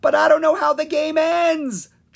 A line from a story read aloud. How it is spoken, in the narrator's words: Jolt cried